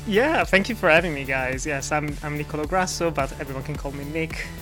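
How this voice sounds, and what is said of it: Italian accent. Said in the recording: “Italian of origin, so I apologize for the accent”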